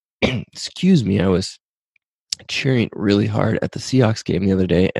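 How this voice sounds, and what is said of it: Hoarse, strained voice. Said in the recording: “my voice is not quite up to that ... my cheering vocal cords are out of shape, and I'm actually sounds like I'm losing my voice”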